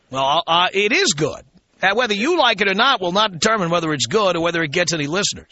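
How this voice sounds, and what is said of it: Radio announcer style voice. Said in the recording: “what's up with the fake radio voice?... he pretends to do the radio voice, and you sound exactly like him.”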